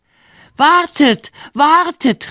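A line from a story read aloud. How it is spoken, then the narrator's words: Shouted. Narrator (German): rief er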